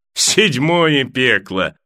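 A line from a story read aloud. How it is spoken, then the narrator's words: Laughing. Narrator (Russian): засмеялся Пайк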